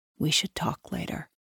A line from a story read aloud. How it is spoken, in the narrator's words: he murmurs in my ear